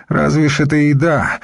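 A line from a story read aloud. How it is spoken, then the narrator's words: Sigh. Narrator (Russian): вздохнул названный брат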